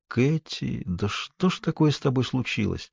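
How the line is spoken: Quiet. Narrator (Russian): тихо произнесла

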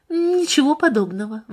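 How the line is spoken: Uncertain objection. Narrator (Russian): возразила она, но ее голос прозвучал неуверенно

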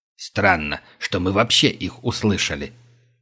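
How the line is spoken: Muttered. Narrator (Russian): пробормотал Глинич

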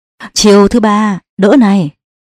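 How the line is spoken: Loud laughter. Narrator (Vietnamese): Tự An cười lớn

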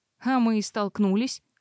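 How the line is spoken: Snort. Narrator (Russian): фыркнула я

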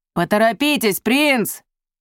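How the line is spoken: Telepathic shout. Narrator (Russian): крикнул Йорис, врываясь в мысли Мерика

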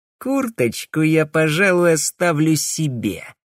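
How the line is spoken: Snide, mocking. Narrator (Russian): ехидно заявил

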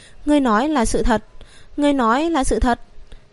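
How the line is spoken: Excited trembling. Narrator (Vietnamese): toàn thân hắn tràn ngập kích động, run rẩy nói

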